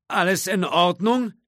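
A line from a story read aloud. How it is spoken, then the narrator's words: Whiny call from below. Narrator (German): rief der Grafikdesigner in quengelndem Tonfall herauf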